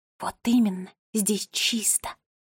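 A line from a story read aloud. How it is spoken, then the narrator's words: Whispered. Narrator (Russian): прошептала Нола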